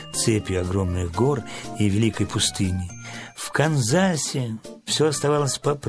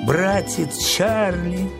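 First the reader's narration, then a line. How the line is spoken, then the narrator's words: Sobbing. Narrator (Russian): всхлипывала Анна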